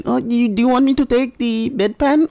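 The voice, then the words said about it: Put-on Soviet-style accent. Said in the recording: “Why they have that accent? ... She's from Soviet Union. ... Behind the old iron curtain”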